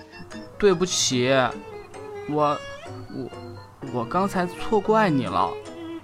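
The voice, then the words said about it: Quiet, soft-spoken stammering apology. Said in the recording (Chinese): “小声地和于小溪道歉”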